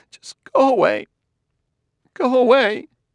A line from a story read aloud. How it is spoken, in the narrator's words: said in a strangled voice